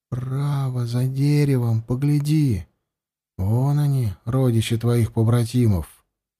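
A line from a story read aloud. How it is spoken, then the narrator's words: Smiling whisper. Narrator (Russian): Андем улыбнулся и прошептал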